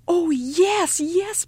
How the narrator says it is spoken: Mother cried

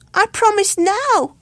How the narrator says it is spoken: cried the sorrowful Luke

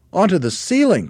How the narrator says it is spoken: cried one of the small monkeys

